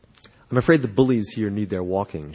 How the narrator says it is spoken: said

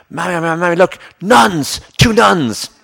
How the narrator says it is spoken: when you were a kid, you would shout

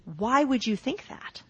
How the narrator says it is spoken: looking at them very calmly

